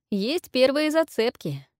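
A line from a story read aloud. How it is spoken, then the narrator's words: Joyful singsong. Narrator (Russian): Радостно пропел Джереми и осекся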